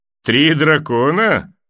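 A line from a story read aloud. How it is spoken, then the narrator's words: Short laugh. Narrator (Russian): хохотнул Клиган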